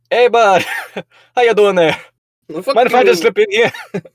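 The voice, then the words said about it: Put-on Canadian accent. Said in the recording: “with your Canadian accent”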